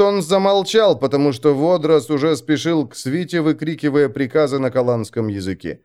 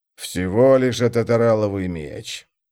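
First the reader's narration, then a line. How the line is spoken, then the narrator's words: Irritated grumble. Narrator (Russian): пробурчал он, удивляясь очевидной тревоге Водроза, раздраженный вниманием Ситок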